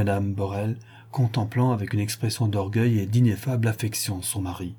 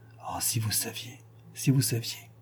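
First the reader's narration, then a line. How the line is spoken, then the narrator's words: Stammering. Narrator (French): balbutie le millionnaire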